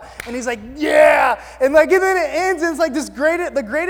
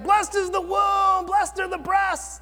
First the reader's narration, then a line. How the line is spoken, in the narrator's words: yelling